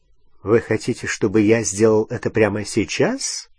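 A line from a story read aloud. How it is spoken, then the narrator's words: Ironic question. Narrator (Russian): ироническим тоном спросил Снег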